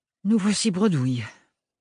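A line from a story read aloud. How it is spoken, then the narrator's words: Sighed. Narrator (French): soupira-t-elle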